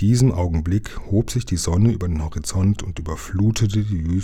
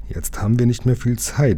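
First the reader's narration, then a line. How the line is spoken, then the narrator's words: Plain. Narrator (German): sagte Lukas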